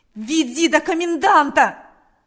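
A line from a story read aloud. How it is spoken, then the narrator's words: Repeated shouting. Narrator (Russian): кричал Степан снова и снова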